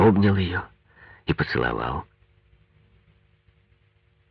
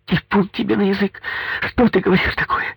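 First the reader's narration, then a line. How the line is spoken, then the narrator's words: Frightened wailing. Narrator (Russian): Испуганно запричитала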